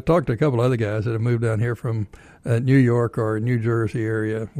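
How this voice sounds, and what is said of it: Texas drawl. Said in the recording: “I still got, I guess, a Texas drawl”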